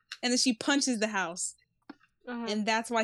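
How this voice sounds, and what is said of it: Usual voice. Nothing is said of it.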